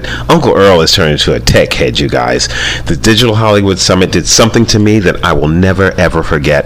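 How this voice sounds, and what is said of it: Excited, energetic delivery. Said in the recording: “Do I sound excited? Well, I really am... I'm very excited.”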